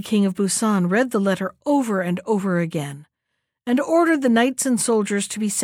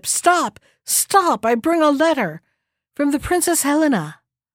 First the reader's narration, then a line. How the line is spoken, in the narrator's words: the seventh Simon cried out from the ship